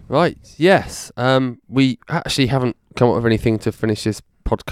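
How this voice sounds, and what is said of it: Usual voice. Nothing is said of it.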